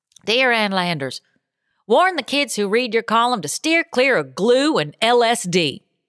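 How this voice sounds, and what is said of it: Put-on Southern American accent. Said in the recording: “I'm just going to give it this Southern accent.”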